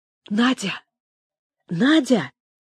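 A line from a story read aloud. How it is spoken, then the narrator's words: Quiet. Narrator (Russian): тихо говорил он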